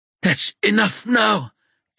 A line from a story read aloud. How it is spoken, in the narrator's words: Eric gasps